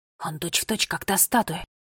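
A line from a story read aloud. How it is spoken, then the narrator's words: Whispered. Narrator (Russian): шепнул Финн Нолли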